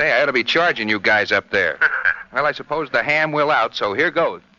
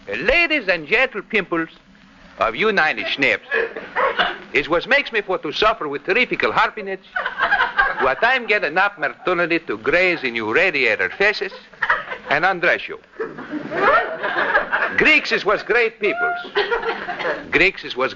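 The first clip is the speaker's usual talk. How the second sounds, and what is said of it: Exaggerated comic Greek accent. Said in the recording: “that Greek dialect of yours? You know, your imitation of that vaudeville actor, George Givett”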